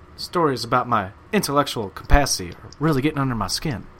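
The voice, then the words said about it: Imitates another person's voice. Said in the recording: “Did I not do a good impression?”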